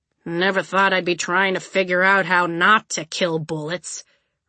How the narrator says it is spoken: Red Tooth grumbled

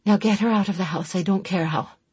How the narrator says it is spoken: she told Tedric wearily

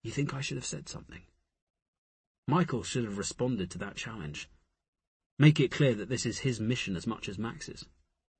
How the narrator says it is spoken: He whispered

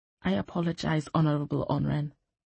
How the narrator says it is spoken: she murmured

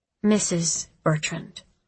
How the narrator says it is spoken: I replied

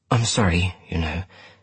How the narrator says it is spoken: she said, so quietly I could barely hear her

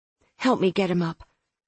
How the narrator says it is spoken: Claire muttered

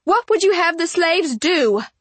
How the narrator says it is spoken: I cried

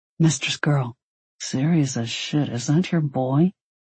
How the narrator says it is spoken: Dee asked under his breath

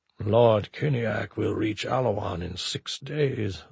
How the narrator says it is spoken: Zarnak murmured as if to himself

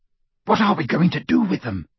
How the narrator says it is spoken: Ron whispered to Harry through the dark

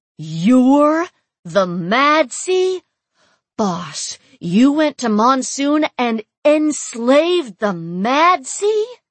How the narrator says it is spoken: Lena bellowed

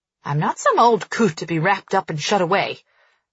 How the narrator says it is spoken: Nanny snarls from the ground

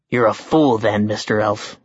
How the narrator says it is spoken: he growled

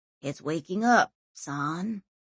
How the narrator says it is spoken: he said dreamily

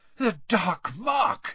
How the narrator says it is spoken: he panted

